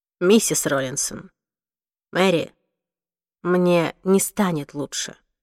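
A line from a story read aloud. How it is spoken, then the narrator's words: Plain. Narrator (Russian): сказал Уилл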